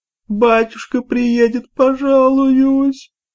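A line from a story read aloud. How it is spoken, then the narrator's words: Whimpering. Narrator (Russian): захныкала Шура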